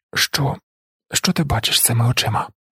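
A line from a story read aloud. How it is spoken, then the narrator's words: Whispered. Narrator (Ukrainian): прошепотіла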